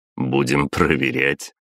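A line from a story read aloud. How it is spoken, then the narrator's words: Snorting. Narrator (Russian): хмыкнул я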